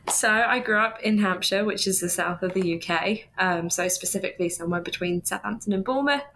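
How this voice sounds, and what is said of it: Southern English accent. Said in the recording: “this lovely accent that I have”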